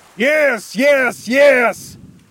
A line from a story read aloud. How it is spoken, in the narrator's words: Cornelius shouted